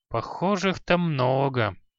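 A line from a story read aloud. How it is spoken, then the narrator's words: Reluctant mumble. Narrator (Russian): неохотно промямлил Халай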